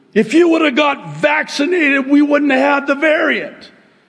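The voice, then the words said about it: Yelling. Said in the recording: “I'm sorry I'm yelling. Actually, I'm not sorry I'm yelling.”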